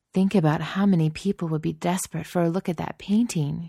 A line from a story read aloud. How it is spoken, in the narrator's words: said, sighing